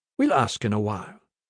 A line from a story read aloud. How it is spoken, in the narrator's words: Pai said